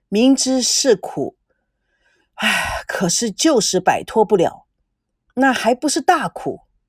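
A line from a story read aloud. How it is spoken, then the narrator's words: Sighing. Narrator (Chinese): 赵熙感叹地说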